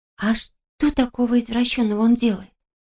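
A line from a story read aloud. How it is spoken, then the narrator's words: Young girl's near-whisper question. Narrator (Russian): Почти шепотом спросила совсем еще юная девчушка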